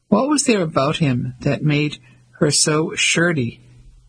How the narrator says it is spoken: Mavis asked

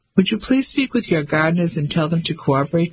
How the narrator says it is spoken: said

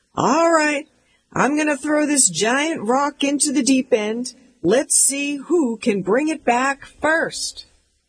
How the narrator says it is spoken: my dad would shout out

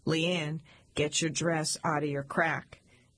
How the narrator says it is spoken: Chuck, the stoic, would calmly turn to me and say

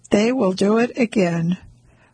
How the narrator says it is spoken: she says evenly

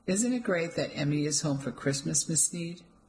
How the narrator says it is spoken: said sweetly

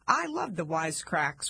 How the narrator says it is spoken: one woman said

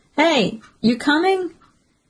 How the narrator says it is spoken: One of Kenny's friends shouts at him from atop the wall

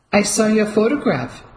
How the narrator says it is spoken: Ellie blurted out

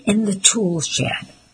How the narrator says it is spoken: sneered

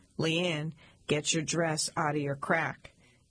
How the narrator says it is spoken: Chuck, the stoic, would calmly turn to me and say

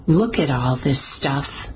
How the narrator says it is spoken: muttered Mimi

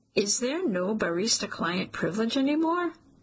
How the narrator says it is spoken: Armin chuckles, the sound soothing

